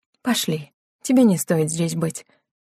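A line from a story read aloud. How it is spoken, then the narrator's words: Soothing tone. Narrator (Russian): говорила успокаивающим тоном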